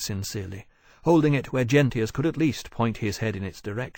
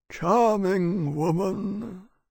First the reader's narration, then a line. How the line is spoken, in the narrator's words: Gentius said sadly